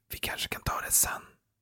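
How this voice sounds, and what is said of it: Whispering quietly. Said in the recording (Swedish): “med tyst röst ... viskar han i luren”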